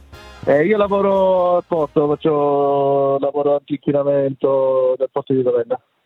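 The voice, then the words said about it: Ravenna regional Italian accent. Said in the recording (Italian): “Proprio Ravennate, mi sembra, dall'accento.”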